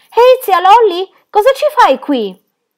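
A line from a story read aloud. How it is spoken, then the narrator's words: Group shouting. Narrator (Italian): gridavano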